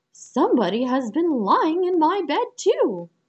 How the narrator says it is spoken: each called out

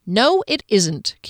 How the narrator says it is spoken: Kier contradicted petulantly, raising her voice

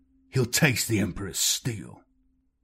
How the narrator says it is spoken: the chaplain growled

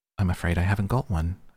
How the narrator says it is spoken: Alice said in a frightened tone

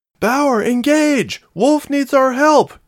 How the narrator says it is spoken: she shouted

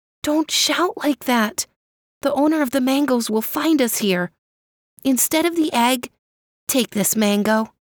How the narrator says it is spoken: The children whispered

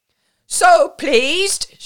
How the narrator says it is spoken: shouted Madame Kropotky through the clamour

